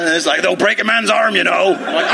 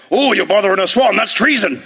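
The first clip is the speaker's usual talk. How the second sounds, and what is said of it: Put-on West Country accent. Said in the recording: “your West Country accent very offensive ... about as good as your Aussie”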